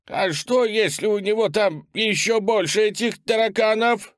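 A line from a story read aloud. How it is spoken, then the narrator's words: Wheezing, coughing blood. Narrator (Russian): спросил лежащий на земле Хоуи, хрипя и харкая кровью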